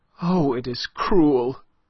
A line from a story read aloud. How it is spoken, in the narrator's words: cried Aline in a stifled voice